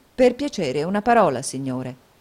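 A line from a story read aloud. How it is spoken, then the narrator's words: Plain. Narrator (Italian): disse Nicola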